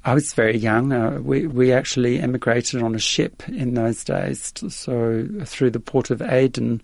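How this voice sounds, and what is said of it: Slight Australian accent. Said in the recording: “you've still got a bit of an Australian accent.”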